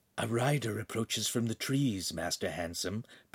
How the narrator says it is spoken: Pan whispered

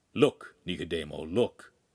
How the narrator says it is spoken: he said quietly

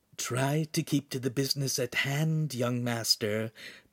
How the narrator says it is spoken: Pan whispered

